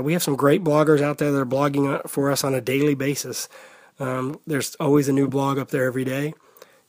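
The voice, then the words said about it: Strange congested voice with cold. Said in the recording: “I'm sorry that my voice sounds strange, but I do have a bad cold... with a bad cold”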